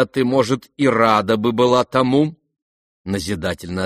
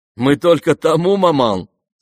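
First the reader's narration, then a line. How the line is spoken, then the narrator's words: Laughing. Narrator (Russian): засмеялась Аделаида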